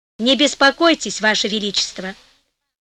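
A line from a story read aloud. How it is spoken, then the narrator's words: Calm. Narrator (Russian): сказал спокойно Гонелло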